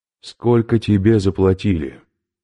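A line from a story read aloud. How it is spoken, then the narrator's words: Calm question. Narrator (Russian): спросил Сазонов спокойно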